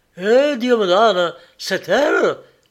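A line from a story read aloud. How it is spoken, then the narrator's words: Exclaimed. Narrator (French): s'écria-t-il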